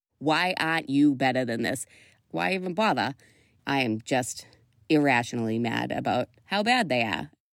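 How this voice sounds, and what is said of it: Non-rhotic Boston accent, exasperated. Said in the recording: “The classic Boston accent is non-rhotic. When you're non-rhotic, most of the time you don't pronounce R's when they follow a vowel. Exhibit A ... exasperated Boston sports fan”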